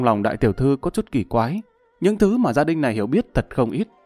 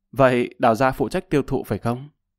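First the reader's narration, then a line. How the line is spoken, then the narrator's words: Cold laughing. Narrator (Vietnamese): Lập Văn Vinh lạnh lùng cười nói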